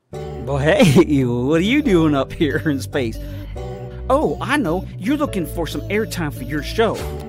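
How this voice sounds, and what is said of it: Country accent. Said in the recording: “his country accent. It is so cool.”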